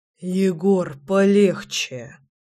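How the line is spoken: Beast speaking through gritted teeth. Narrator (Russian): Процедил зверь

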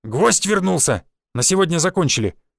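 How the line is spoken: Barked. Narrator (Russian): рявкнул один из бойцов

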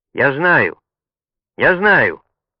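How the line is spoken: Daring shout. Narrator (Russian): Чуч Джанфредо, осмелился крикнуть

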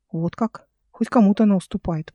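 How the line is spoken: Muttered. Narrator (Russian): пробормотала Эл

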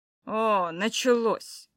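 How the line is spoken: Irritated grumble. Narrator (Russian): раздраженно проворчал Духов

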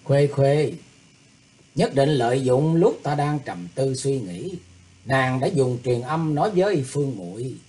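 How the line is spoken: Smiling. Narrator (Vietnamese): Thủy Tướng Hạo mỉm cười nói

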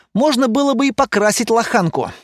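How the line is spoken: Angry. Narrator (Russian): зло сказал Лайер

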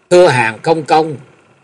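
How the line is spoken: Old man, raised voice. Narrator (Vietnamese): lão ta cất cao giọng và nói

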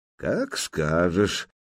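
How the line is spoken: Calm reply. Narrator (Russian): спокойно отозвался княжич

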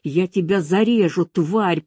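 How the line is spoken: Hissed threat. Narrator (Russian): прошипела она

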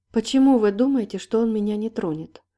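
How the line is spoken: Calm question. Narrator (Russian): уже спокойно спросила она

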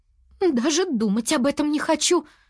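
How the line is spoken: Exclaiming. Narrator (Russian): воскликнула Нини

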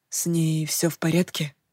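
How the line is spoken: Whisper. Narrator (Russian): прошептал Уилл

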